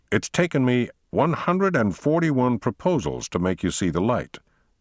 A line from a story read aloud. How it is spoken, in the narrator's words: he said triumphantly